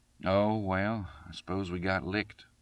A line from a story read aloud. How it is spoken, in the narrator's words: he remarked sadly